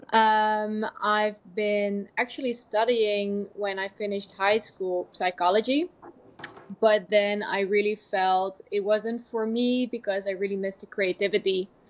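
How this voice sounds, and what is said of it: Dutch accent. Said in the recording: “I was born in Amsterdam, as you can probably hear about my accent.”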